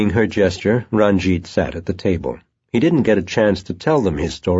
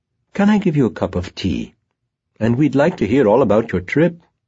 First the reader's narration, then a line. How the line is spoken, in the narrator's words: in a friendly tone